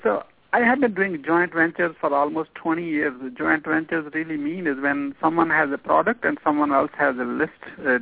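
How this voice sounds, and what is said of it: Non-native accented English. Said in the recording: “forgive me if you don't understand every word I say because of my accent”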